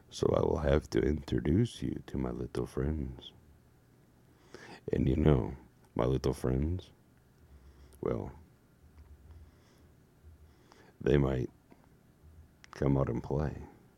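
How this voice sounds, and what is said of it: Put-on sexy voice. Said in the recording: “my sexy voice”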